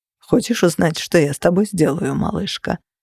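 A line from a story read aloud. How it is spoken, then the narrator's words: Completely calm, menacing. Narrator (Russian): совершенно спокойно спросил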